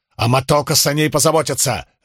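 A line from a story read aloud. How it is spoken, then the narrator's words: Barked. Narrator (Russian): рявкнул Спартак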